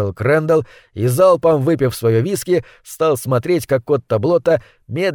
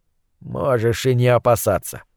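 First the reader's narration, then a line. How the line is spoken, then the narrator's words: Grumbling into empty glass. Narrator (Russian): проворчал Отто Блотта в пустую рюмку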